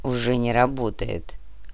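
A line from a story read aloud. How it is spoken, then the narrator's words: Grumbled mutter. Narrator (Russian): буркнул Нур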